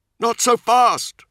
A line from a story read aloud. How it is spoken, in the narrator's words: Nemiel yelled over the Testudo's roaring engine